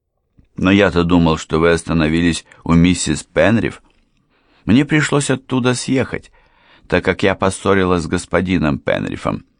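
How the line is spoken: Plain. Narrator (Russian): ответила Энн

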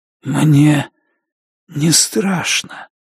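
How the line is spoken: Whispered. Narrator (Russian): прошептал

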